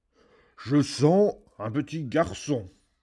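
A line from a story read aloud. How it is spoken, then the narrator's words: Ogre roaring. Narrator (French): rugit l'ogre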